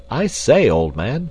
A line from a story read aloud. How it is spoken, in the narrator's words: cried Clayton